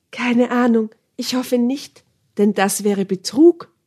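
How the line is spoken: Croak. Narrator (German): krächzte ich

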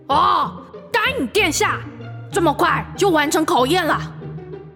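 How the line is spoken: Distant shout. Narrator (Chinese): 洞口传来智多星伊图尔的喊叫声

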